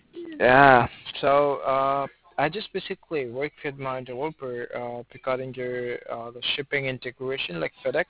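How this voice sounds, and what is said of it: Rough sick-sounding voice. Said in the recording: “I just have a little fever ... my voice is a little, you know, fucked up.”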